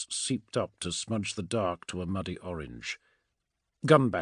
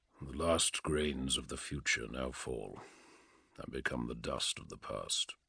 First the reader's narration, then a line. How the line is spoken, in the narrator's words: he said softly